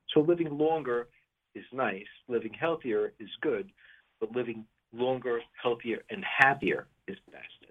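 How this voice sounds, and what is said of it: Brooklyn accent. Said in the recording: “I know that my accent might give me away, but I grew up in Brooklyn”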